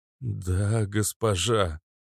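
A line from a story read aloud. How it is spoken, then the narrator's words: Hoarse rasp. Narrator (Russian): прохрипел Резвый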